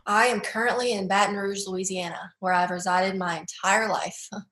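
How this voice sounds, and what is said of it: Mild Southern American twang. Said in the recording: “you've got a Southern accent, but I don't think it's the strongest Southern accent I've heard ... I do have a little bit of a twang”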